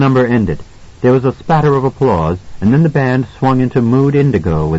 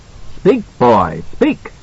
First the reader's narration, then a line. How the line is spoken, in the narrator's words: Harry Derwent cried